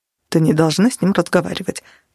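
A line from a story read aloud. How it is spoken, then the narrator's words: Male mumble. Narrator (Russian): пробормотал он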